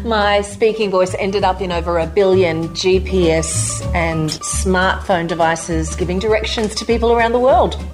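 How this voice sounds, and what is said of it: Australian female accent. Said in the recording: “native Australian female voiceover artist ... the Australian accent was considered the most pleasant English-speaking accent to listen to”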